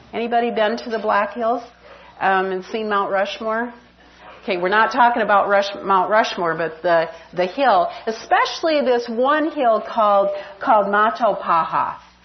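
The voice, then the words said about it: South Dakota accent. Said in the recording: “did you notice how I said that too? You got that accent, South Dakota.”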